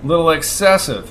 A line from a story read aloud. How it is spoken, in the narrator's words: growled